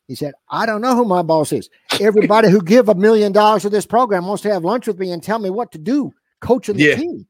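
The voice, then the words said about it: Imitates another person's voice. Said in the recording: “it's a very good impression, by the way. ... That's an uncanny impression.”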